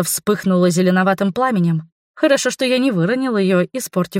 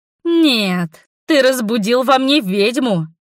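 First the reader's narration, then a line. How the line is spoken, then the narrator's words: Sepulchral howl. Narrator (Russian): Могильным голосом завыла я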